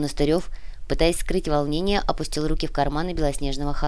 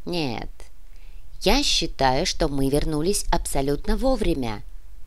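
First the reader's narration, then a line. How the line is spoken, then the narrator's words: Calm. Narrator (Russian): спокойно произнес Красаулос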